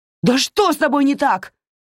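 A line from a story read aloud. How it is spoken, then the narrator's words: Furious shout. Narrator (Russian): крикнула она, еще больше свирепея от моей невыразительной гримасы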